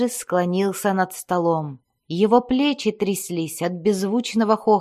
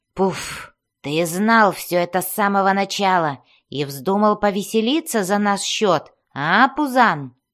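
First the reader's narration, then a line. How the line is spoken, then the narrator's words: Dwarf's grumble. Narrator (Russian): проворчал дворф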